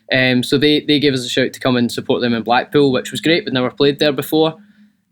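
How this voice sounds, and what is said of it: Strong Scottish accent. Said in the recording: “the accent can sometimes throw people off ... watch Brave before the podcast”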